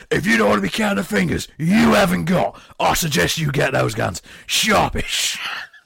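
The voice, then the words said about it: Imitates another person's voice. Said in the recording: “As good as an impression that is, that could have just been Ray Winston.”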